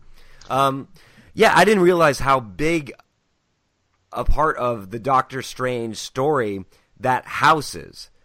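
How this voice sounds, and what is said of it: Raspy, hoarse voice. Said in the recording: “apologize for my voice, listeners... I'm getting a cold... so you're getting that nice raspy... You sound like a man.”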